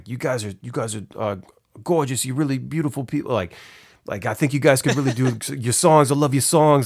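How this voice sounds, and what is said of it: Heavy Hispanic Brooklyn accent impression. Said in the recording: “heavy, like Hispanic Brooklyn ... my impression ... That's a great impression.”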